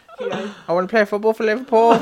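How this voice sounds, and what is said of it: Poor put-on Liverpool accent. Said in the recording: “a Liverpudlian accent ... You're so bad at accents, it hurts.”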